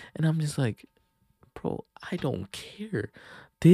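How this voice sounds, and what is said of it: Usual voice. Nothing is said of it.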